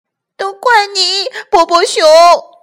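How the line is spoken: Sad, crying. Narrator (Chinese): 他伤心的哭了起来

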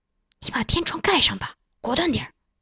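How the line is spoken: Low voice, woman. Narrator (Chinese): 女人摸黑走到小伙子的身边，低声对他说

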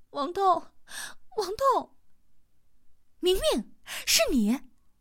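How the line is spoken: Tearful shouting. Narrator (Chinese): 一个带着哭腔的声音在大喊

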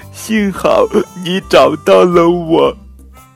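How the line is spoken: Crying. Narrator (Chinese): 公主哭着说

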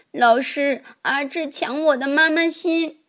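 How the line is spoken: Crying child. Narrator (Chinese): 小朋友哭着说

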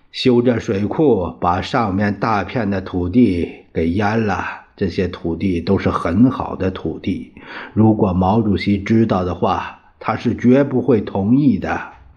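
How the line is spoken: Sighing. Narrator (Chinese): 他叹了口气说

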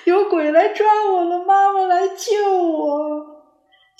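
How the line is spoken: Loud wailing sobs. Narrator (Chinese): 聪聪放声大哭

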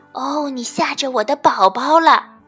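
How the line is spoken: Loud. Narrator (Chinese): 袋鼠妈妈大声地说

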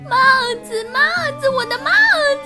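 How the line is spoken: Little monkey, plain. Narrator (Chinese): 小猴子说

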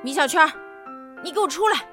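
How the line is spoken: Shouting. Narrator (Chinese): 肌肉老师大喊

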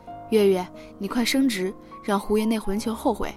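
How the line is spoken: Old woman muttering. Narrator (Chinese): 老太太嘀咕

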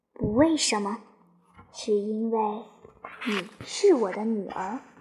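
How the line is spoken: Gentle. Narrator (Chinese): 母亲 温柔不移迟地说

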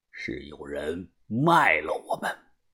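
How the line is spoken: Icy cold. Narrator (Chinese): 把头声音冰冷地说

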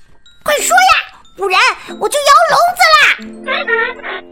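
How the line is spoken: Parrot, frantic squawking. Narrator (Chinese): 鹦鹉开始狂叫

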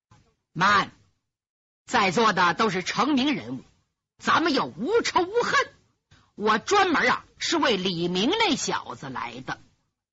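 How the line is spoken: Cold. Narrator (Chinese): 神秘怪客却冷冷的说

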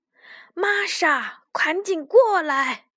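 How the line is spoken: Old woman calling out. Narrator (Chinese): 老奶奶喊道

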